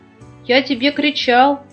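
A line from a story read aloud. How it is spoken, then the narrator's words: Bear cub shouting from afar. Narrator (Russian): еще издали крикнул медвежонок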